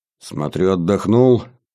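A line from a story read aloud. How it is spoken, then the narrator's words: Grumbled greeting. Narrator (Russian): проворчал вместо приветствия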